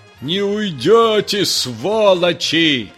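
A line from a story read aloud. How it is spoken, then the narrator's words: Shouting from afar. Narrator (Russian): кричали из барки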